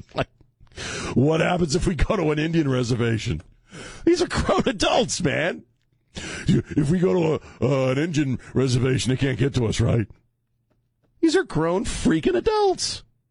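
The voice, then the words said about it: Upset voice rising in pitch. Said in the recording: “You can tell I'm upset because my voice is getting high.”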